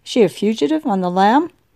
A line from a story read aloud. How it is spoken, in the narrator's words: May chuckled